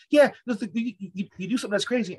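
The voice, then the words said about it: Imitated strong Haitian accent. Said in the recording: “My mom has a strong Haitian accent”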